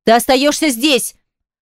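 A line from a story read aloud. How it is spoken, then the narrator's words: Shouting. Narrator (Russian): Прокричала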